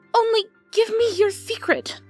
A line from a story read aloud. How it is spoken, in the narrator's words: she begged